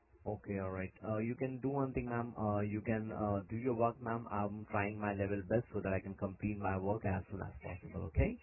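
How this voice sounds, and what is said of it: Non-Australian foreign English accent. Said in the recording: “You've got an accent. You're not Australian, are you?”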